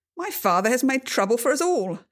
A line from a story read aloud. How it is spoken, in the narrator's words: Jonathan exclaimed